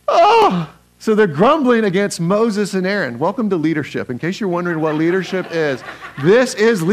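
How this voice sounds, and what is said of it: Usual voice. Nothing is said of it.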